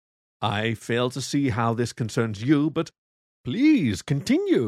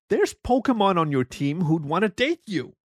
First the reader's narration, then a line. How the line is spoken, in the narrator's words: he yelled